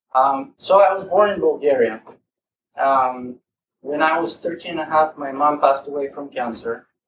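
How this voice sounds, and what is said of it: Eastern European accent. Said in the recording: “a freaking Eastern European accent”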